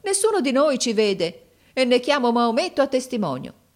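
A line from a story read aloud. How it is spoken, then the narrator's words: Exclaimed. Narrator (Italian): esclamò mio fratello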